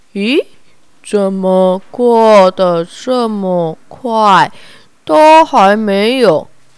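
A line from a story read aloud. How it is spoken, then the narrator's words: Slow puzzled muttering. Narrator (Chinese): 慢吞吞疑惑的自言自语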